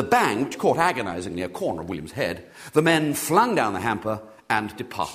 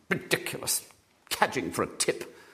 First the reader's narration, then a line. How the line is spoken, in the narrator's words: muttered the feminine voice indignantly